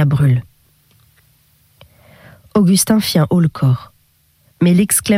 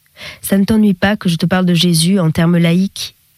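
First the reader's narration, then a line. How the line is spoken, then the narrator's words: Sudden deeply respectful question. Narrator (French): demanda-t-il soudain d'un ton de respect profond, incertain des libertés qu'il pouvait prendre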